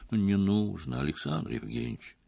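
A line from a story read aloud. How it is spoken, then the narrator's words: Gentle. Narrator (Russian): мягко сказала Лариса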